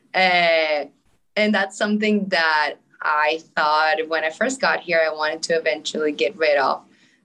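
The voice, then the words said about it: Non-native English accent. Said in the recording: “the most obvious one that everyone might be able to already hear, is my accent ... my English wasn't as good”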